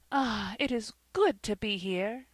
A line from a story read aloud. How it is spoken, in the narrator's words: She drew a deep breath and exclaimed, almost involuntarily